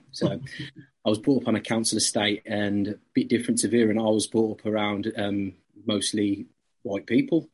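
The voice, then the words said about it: Birmingham English accent. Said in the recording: “I'm from Birmingham. As you can probably tell from my accent.”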